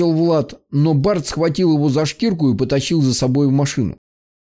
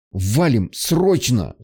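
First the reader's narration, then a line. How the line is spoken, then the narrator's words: Strained, forced out. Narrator (Russian): с трудом выдавил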